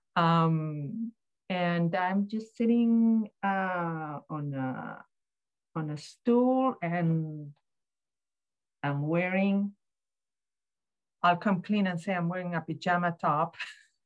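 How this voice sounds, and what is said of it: Accented speech, slightly hard to understand. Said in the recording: “I have a lot of metal in my mouth at the moment because I'm undergoing some treatment. I hope that you can understand everything that I say, because that, in combination with my accent, it makes it pretty difficult”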